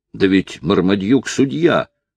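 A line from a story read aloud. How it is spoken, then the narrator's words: Indignant exclamation. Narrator (Russian): негодующе воскликнул Ричард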